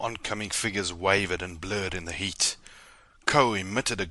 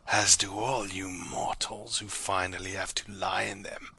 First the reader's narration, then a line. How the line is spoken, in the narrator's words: rasped